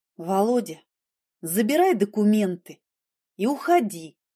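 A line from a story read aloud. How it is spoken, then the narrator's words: Tired. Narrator (Russian): сказала я устало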